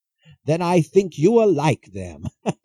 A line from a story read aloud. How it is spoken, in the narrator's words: laughed Prospero